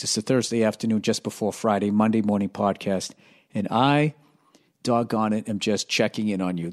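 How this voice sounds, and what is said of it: Raspy, strained voice. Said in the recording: “Old raspy voice, Billy. ... My voice is coming around here. ... I fucked up my voice. And it's better”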